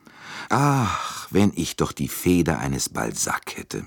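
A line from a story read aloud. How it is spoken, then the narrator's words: Sighing. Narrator (German): sagte er seufzend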